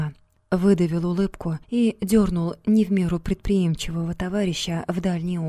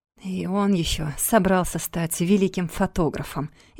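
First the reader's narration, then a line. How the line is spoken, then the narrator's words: Mocking snort. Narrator (Russian): издевательски хмыкнул Вадик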